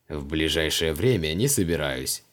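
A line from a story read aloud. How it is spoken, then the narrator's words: Snorting. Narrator (Russian): хмыкнул маг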